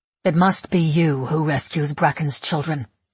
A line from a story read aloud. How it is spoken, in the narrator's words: my mother says, her voice sullen and cold